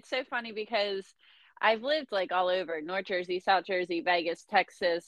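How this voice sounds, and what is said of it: Philadelphia accent. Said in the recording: “I just love your little accent. ... I'm from Philly.”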